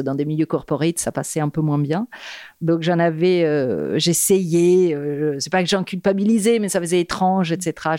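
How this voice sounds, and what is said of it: Italian accent in French. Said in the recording (French): “Ton accent ... me fait rêver ... le fait d'être italienne”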